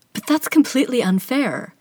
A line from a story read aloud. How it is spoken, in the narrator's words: Amarie exclaims